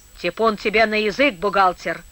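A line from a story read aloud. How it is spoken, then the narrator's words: Gruff old man. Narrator (Russian): грубо сказал старик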